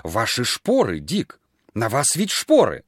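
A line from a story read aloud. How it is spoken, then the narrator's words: Horrified exclamation. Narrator (Russian): Люд воскликнула в ужасе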